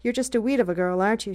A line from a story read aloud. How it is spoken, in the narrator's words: said